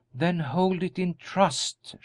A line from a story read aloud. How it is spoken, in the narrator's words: she said softly